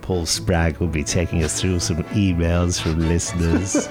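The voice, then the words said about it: Creepy put-on voice. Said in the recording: “in a creepy voice”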